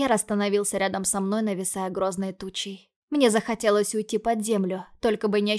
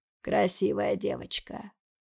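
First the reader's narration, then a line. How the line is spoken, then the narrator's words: Hoarse rasp. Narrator (Russian): прохрипел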